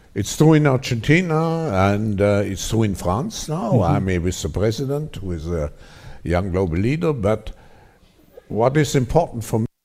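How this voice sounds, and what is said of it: Strong foreign accent. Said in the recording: “I lost half of what the guy was saying. ... the strong accent.”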